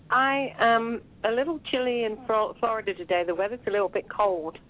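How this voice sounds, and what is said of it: Slight English accent, not American. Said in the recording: “You've got a slight accent there ... It doesn't sound like an American accent to me ... it's a mongrel accent because I'm English ... I am from Devonshire”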